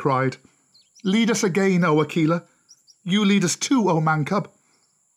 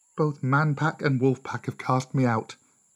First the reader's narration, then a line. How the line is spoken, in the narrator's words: Mowgli said sadly